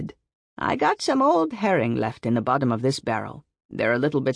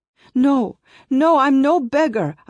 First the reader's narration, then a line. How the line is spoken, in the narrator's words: I cried